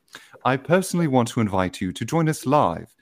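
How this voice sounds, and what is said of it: Put-on British accent. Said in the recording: “my best British accent”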